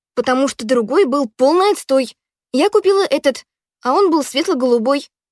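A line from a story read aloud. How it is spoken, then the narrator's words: Snapping irritably. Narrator (Russian): огрызнулась Ханна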